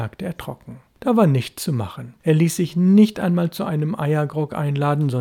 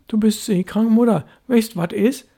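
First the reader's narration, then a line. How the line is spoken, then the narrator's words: Calling after someone. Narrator (German): rief Störtebäcker hinter ihr her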